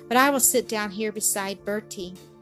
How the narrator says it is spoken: Nell answered with a sigh

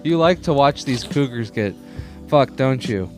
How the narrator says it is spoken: She laughed

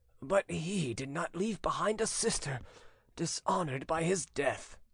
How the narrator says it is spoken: murmured the old man in a muffled voice

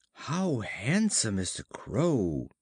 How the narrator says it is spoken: he exclaimed

